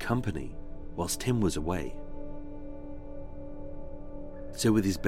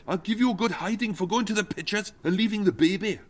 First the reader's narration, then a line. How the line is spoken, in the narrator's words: Tim snapped